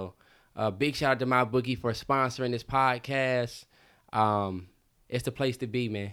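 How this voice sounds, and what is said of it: Usual voice. Nothing is said of it.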